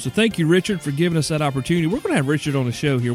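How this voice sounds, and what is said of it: South Carolina Southern accent. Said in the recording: “My South Carolina accent”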